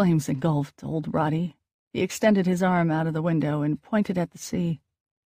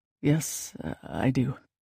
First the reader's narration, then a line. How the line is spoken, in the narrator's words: Dex replied quietly